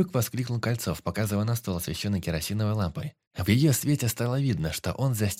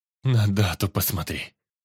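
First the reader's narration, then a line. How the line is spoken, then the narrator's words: Near moan. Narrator (Russian): Почти простонал Кольцов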